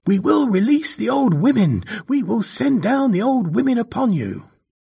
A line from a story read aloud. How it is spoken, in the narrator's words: the boy cried out